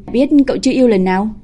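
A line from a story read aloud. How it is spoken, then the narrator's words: Laughing. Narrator (Vietnamese): Viu Khả Khả bật cười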